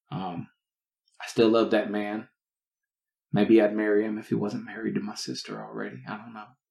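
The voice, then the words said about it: Southern American accent. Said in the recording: “hearing me talk with a southern accent”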